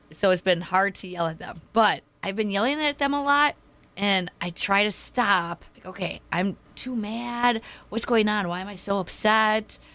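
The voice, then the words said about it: Hoarse, strained voice. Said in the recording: “my throat is sore... you lost your voice... I've been having a horrible cough. I've been losing my voice.”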